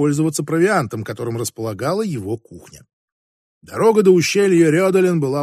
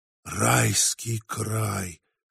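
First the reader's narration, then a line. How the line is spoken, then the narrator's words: Sigh. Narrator (Russian): вздохнул Стивен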